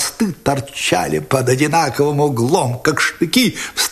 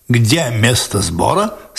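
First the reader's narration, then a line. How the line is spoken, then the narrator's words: Plain. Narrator (Russian): спросил офицер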